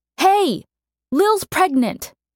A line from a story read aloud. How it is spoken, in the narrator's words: Mercy shouted from halfway up the stairwell